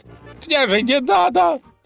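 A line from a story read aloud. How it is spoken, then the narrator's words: Sobbing horse. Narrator (Russian): всхлипнул конь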